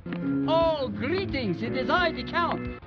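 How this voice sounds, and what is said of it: Thick Hungarian Dracula accent. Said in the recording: “gave the Count the thick Hungarian accent that we've all come to know and love”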